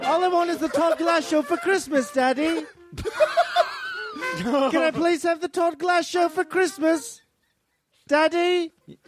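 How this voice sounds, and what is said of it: Put-on Liverpool accent. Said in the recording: “that actually is a perfect Liverpool accent ... spot on ... very accurate”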